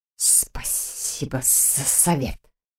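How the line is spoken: Hissing. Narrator (Russian): прошипел я

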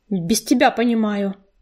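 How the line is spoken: Snapping back. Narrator (Russian): огрызнулась рыжинка

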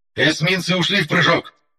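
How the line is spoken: Shouting. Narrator (Russian): выкрикнул Лис

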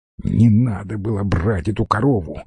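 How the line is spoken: Hissed angrily. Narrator (Russian): зло прошипела Зойка

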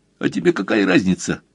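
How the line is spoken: Snorting. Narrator (Russian): фыркнул Донни

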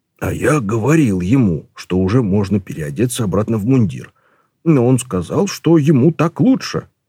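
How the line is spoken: Whisper. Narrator (Russian): шепнул Колон Ваймсу

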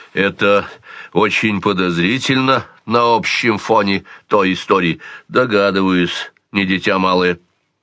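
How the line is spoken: Plain. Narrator (Russian): сказал Сварог

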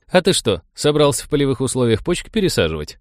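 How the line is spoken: Chuckling. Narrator (Russian): хохотнул Коля

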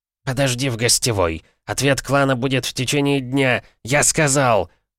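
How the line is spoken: Barked. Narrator (Russian): рявкнул он

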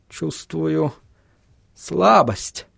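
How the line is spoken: Muttered. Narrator (Russian): пробормотал Вильям

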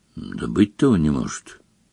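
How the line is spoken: Quiet. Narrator (Russian): Дамблдор негромко промолвил

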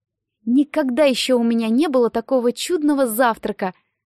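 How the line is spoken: Exclaimed. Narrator (Russian): воскликнула Дейзи

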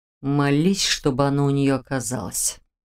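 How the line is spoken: Demon hissing. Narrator (Russian): прошипел демон

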